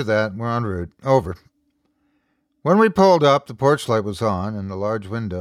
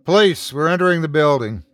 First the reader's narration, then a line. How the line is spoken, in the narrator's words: I called out, both as a warning and as a courtesy